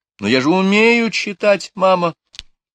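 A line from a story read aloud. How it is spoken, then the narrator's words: Pleading. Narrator (Russian): умоляющим тоном сказала Лора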